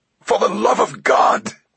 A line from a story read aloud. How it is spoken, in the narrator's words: Vetra screamed